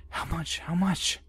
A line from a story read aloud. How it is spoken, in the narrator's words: feverishly whispered